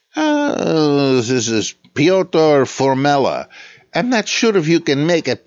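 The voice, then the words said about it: Phony Slavic accent. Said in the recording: “I'm just doing my general phony Slavic accent, but about as close as I can get.”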